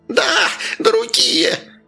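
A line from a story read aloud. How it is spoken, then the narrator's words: Shrieking, spluttering. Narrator (Russian): визжал жихарь, брызжа слюной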